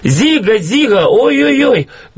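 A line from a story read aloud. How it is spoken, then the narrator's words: Chanted shout. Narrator (Russian): так кричали, что на зигхай больше было похоже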